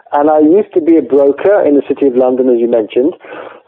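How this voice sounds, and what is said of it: English accent. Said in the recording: “I'm English, as you can tell from my very English accent.”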